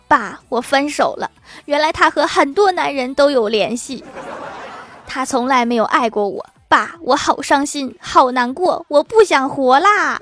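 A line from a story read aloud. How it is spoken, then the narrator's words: Loud sobbing. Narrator (Chinese): 我哥大声地哭了出来，说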